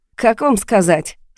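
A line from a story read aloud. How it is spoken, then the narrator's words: Laughing. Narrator (Russian): Саша засмеялся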